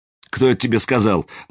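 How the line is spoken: Mocking unfamiliar voice. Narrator (Russian): насмешливо осведомился незнакомый голос

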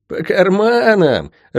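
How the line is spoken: Loud laughter. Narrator (Russian): расхохотался Билл

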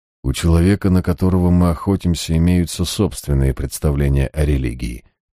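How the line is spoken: Gloomy. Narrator (Russian): мрачно заметил я

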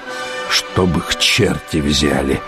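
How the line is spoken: Hissing. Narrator (Russian): прошипел Шарлей

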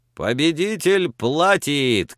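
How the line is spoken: Shouted. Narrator (Russian): крикнул Пламенный

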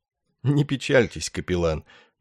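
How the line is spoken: Sad laugh, after pause. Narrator (Russian): грустно рассмеявшись, сказал после паузы Ясариан

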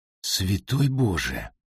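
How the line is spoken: Murmuring. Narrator (Russian): пробормотала Одри

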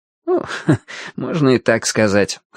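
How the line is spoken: Wry snort. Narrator (Russian): хмыкнул собеседник

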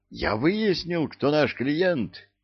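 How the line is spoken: Eager exclamation. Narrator (Russian): воскликнул я, распираемый желанием поскорее выпалить великое известие

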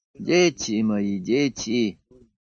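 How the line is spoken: Sighing. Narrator (Russian): вздохнул доктор

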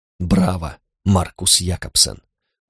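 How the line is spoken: Gruff mutter. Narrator (Russian): буркнул Карл

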